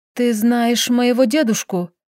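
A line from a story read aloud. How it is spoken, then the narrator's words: Quiet question. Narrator (Russian): спросила тихо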